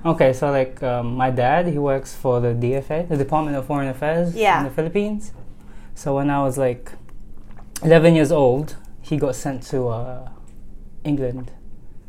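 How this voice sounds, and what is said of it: British accent. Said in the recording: “this British guy that's Filipino walks up to me with this accent ... the first Filipino guy that I've ever met with a British accent”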